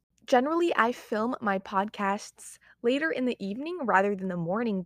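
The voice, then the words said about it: Just-woken, morning voice. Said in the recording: “my voice might sound a little bit different, it's because I woke up, I'd say like almost an hour ago.”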